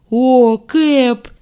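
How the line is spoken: Cheerful deep bass. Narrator (Russian): жизнерадостно пробасил демон

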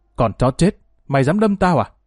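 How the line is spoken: Screaming. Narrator (Vietnamese): miệng hắn gào lên

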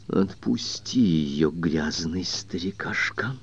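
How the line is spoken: Quiet rusty voice. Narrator (Russian): сказала она тихим ржавым голосом

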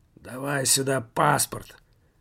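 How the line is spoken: Irritated old man. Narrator (Russian): каким-то раздраженным голосом проговорил старик

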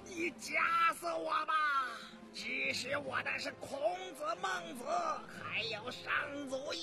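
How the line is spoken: Frightened scholar's cry. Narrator (Chinese): 谢济士是个文弱书生，脸色立时惨白如雪，大声一叫

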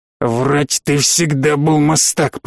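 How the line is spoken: Growl. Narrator (Russian): прорычал Баламут

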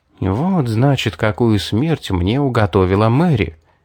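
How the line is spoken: Muttered. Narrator (Russian): пробормотал

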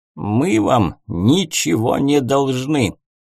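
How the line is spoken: Rude interruption. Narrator (Russian): грубо прервал его Майрон

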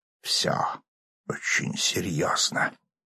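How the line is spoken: Whisper. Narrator (Russian): шепотом сообщил

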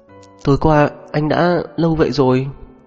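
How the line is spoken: Dry-mouthed stammer. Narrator (Vietnamese): Mồm miệng cô khô khốc, lắp bắp nói

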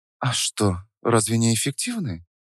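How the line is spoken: Near whisper. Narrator (Russian): Почти прошептала она

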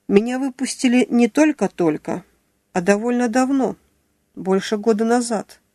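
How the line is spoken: Calm remark. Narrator (Russian): спокойно заметил Юрцевич

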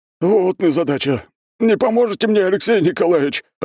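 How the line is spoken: Helpless groaning. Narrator (Russian): простонал он, беспомощно болтаясь

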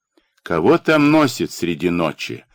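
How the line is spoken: Coachman shouting angrily. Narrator (Russian): сердито кричит кучер

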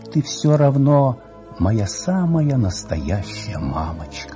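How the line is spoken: Whisper. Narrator (Russian): шептала

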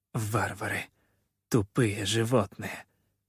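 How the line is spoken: Pained words through teeth. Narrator (Russian): цедила она сквозь зубы, с болью

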